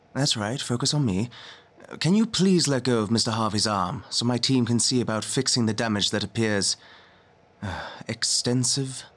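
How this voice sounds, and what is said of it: Polite, confident English accent. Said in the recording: “It was a polite English accent. His tone had confidence, which made his words appealing to listen to.”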